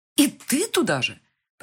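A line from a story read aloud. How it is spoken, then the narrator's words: Near cry. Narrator (Russian): почти вскрикнула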